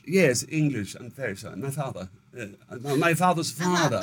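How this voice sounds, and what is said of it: Put-on British accent. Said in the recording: “lots of times I'd slip into a British accent.”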